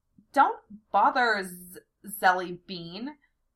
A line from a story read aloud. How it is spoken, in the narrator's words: I stammered nervously